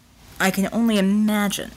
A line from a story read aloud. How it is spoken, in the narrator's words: Tesla said with a sigh